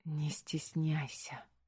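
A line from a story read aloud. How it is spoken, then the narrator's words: Whisper. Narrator (Russian): шепнул он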